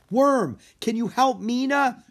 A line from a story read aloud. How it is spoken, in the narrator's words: Drake yelled